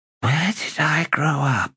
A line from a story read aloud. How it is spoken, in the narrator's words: She whispered